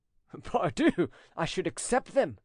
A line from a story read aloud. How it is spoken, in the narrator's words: cried the notary, as if he had not the least suspicion